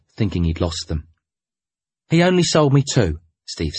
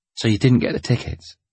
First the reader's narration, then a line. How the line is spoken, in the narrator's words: I said sadly